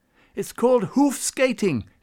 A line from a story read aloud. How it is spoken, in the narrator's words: he called out